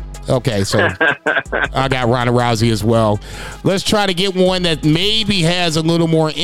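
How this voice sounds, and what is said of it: Usual voice. Nothing is said of it.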